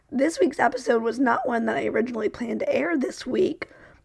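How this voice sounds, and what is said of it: Strained, fading voice. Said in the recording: “as you can probably hear, I am losing my voice. ... you can barely understand what I'm saying and I'm forcing the words to come out”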